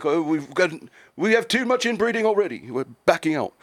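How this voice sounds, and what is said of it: Bad put-on English accent. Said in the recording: “That's a horrible accent. ... My bad, England, for the insult and the accent.”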